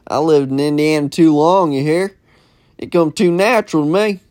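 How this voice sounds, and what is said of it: Put-on American country cowboy accent. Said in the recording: “being a fucking cowboy. I can't get the fucking accent out of here. ... it's hard to keep that country accent going.”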